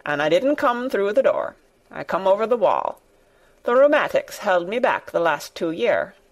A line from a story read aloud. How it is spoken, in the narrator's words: said old Ben dryly